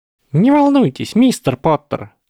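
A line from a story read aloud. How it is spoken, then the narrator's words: Squeaky voice. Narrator (Russian): пропищал Флитвик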